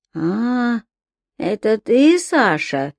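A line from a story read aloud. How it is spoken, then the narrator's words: Old man's faint hoarse voice. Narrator (Russian): едва проговорил старик хриплым голосом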